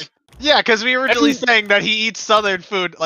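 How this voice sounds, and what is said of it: Usual voice. Nothing is said of it.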